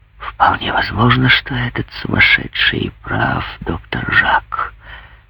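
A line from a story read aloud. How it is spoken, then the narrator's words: Bitter whispered reply. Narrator (Russian): ответил тоже шепотом и с горькой усмешкой кум Туранжо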